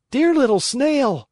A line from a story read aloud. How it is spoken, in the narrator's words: cried Pinocchio from the street